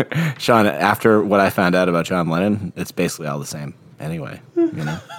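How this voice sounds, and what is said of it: Usual voice. Nothing is said of it.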